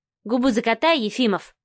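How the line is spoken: Dismissive snort. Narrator (Russian): фыркнула Машка

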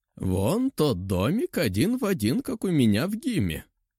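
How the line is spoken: Giggling. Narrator (Russian): хихикнул Эша

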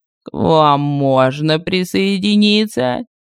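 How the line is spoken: Purring voice from above. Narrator (Russian): Промурлыкал голос сверху

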